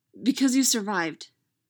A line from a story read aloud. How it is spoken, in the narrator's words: she blurts, unguarded, sudden